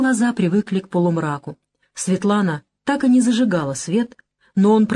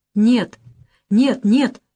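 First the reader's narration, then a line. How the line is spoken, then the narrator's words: Exclaiming. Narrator (Russian): воскликнула она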